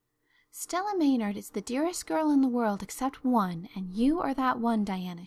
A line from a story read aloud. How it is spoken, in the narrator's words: she said